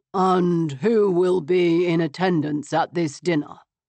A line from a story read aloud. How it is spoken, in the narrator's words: He asked smoothly